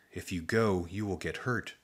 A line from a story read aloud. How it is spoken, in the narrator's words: the bunny's lips whispered